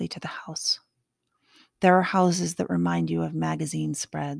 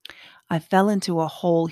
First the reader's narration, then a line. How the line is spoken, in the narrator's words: he said